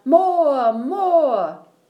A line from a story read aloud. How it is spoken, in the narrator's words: people would stamp their feet and yell